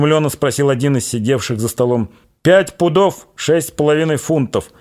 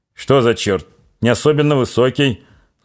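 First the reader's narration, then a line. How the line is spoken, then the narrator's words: Old man purring. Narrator (Russian): Замурлыкал седой доктор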